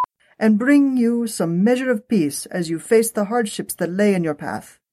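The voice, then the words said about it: Badly done put-on accent. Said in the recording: “my terrible, terrible accent”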